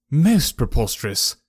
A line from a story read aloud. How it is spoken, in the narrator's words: I exclaimed